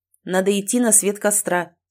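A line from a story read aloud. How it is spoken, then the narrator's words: Plain. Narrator (Russian): сказал Адамс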